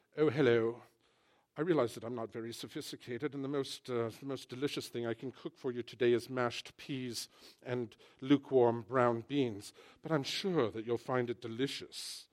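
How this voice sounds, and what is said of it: Put-on posh English accent. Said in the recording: “the British guy says it, and we say, oh, that sounds lovely ... Something about that English accent”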